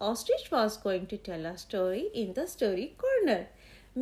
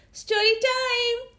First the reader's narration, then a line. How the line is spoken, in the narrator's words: Eddie came in and shouted